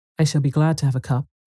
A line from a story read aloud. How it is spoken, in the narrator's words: I answered